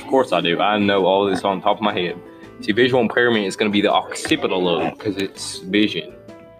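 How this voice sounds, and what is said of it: Thick country accent. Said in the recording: “You have a very thick country accent, and I like it.”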